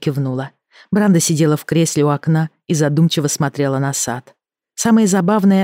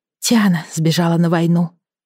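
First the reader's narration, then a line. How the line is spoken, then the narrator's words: Sighing. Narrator (Russian): вздохнула Эми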